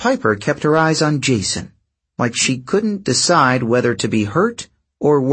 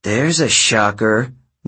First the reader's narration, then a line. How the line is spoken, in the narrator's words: Leo muttered